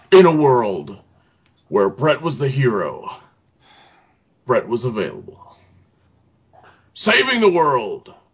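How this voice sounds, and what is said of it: Epic movie trailer announcer voice. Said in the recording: “doing their best epic movie announcer voice”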